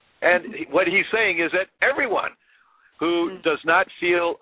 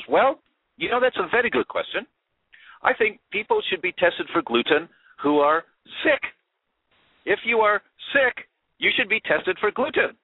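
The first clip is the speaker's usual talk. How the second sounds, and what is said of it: Imitated New Zealand accent. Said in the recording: “he's from New Zealand, he's got this accent.”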